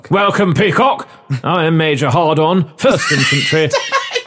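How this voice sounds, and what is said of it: Old army officer accent. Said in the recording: “old army type accent”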